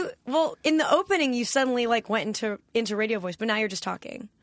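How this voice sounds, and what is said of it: Usual voice. Nothing is said of it.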